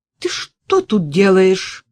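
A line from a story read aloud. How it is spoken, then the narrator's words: Stern fearless shout. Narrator (Russian): строго прикрикнула чуждая страха Надежда Филаретовна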